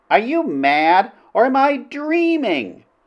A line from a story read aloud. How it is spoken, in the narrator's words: the princess in utter bewilderment, she could only exclaim